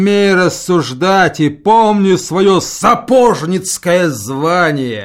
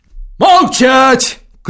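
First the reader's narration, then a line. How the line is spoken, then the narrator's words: Shouted. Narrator (Russian): крикнул Федор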